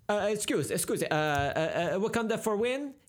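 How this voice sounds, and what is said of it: Italian paparazzi accent impression. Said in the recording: “You do a really good impression of the paparazzi, really, in Italy.”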